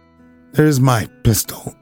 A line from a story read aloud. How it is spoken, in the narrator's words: said McMurdo coolly